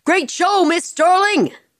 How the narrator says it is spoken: One of the stagehands shouted to her

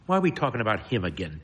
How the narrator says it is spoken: Toby mutters

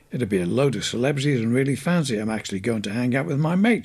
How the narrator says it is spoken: she said

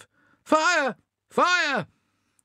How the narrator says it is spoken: shouts of

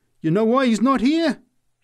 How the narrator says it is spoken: answered triumphantly

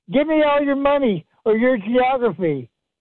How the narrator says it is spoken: the robber screams

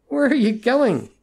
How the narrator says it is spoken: asked desperately

